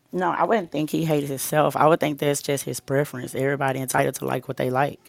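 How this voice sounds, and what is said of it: North Louisiana accent. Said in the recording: “where that accent from? ... I'm from Louisiana. I'm from North Louisiana.”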